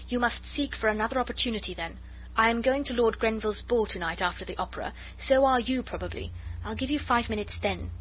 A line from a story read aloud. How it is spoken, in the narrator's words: she said impatiently